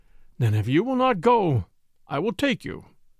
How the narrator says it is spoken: said Knut, with a sigh

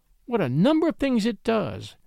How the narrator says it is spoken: exclaimed Ethel

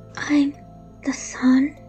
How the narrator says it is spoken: she whispered

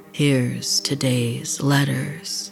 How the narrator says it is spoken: Raoul said in a deep, demonic voice

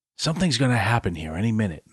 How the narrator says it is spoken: Max whispered

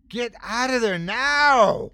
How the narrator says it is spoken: I scream

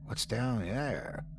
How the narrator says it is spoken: I whispered

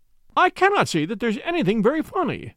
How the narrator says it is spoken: cried our client, flushing up to the roots of his flaming head

